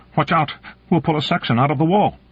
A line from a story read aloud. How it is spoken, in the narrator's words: Morrison said tightly